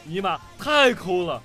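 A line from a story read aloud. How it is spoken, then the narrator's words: Roaring. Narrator (Chinese): 小偷…吼道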